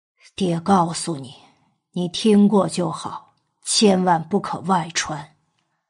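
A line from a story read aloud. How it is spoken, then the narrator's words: Hushed, reluctant whisper. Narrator (Chinese): 娄承德犹豫了很久，长叹口气，终于妥协，压低声音，小声道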